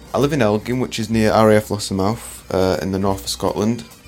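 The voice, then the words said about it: Leeds English accent. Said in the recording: “you can tell from my accent, I'm not from Scotland. I'm from Leeds”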